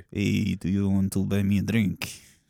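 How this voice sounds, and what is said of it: Put-on generic European accent, Dracula-like. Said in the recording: “Is that fucking Dracula? ... It says generic European. ... I can really hear that Spanish, generic European. ... generic European, mid-Europe.”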